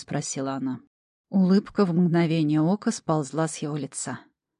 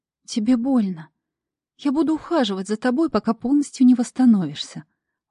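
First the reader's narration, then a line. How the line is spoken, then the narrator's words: Gentle young woman. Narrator (Russian): ласково сказала девушка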